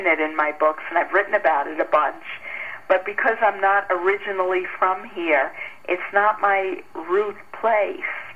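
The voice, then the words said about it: Noticeable Long Island New York accent. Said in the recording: “I grew up on Long Island in New York ... I thought I detected that little bit of accent ... it's not so little ... Can imagine how thick it was.”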